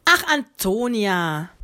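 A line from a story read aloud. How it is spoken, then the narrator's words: Sighing. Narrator (German): seufzte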